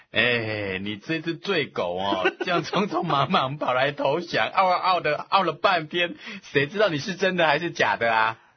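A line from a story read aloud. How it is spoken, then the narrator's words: Laughing. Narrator (Chinese): 司马懿就笑着说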